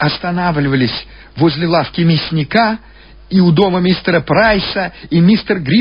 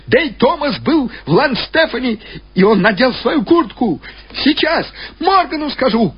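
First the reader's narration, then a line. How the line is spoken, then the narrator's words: Woman shouting through din. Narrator (Russian): крикнула плотничка из стучащей свистящей тьмы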